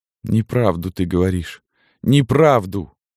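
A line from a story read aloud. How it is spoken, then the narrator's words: Anguished near-moan. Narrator (Russian): Почти простонала Галина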